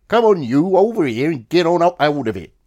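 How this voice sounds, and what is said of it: Put-on Norfolk rural brogue. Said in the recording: “the Lance Corporal, a Norfolk ... His brogue”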